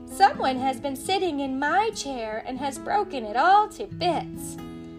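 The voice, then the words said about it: Small high baby bear voice. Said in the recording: “cried the baby bear in his wee little voice”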